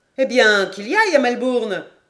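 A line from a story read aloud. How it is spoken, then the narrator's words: Crying out. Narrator (French): s'écria Paganel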